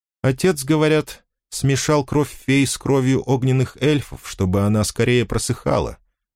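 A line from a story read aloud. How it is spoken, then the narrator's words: Calm voice. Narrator (Russian): спокойным голосом продолжала она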